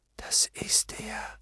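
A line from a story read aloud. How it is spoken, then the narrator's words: Breathy whisper. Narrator (German): hauchte Hester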